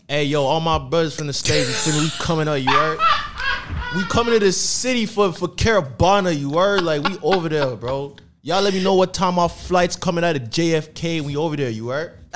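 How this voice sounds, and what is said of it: Put-on New York American accent. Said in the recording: “Both your American accents are bad. ... His is good. ... that's the New York.”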